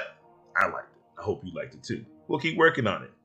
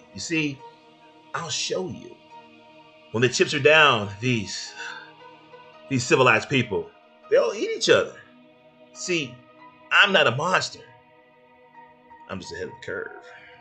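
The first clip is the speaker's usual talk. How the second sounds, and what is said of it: Imitation of the Joker's voice. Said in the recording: “that's not the great or the greatest imitation of Joker”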